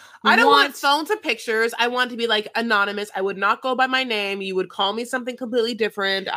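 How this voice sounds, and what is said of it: Usual voice. Nothing is said of it.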